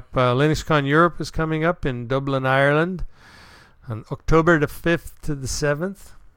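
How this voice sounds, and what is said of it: Poor put-on Irish accent. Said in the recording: “That's my poor excuse for an Irish accent.”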